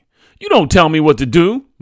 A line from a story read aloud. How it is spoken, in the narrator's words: my mother snapped